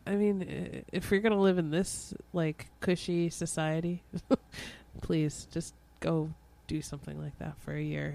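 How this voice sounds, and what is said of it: Stuffy, congested voice. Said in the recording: “I'm sorry, I have a cold.”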